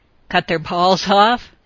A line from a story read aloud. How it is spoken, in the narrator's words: she laughed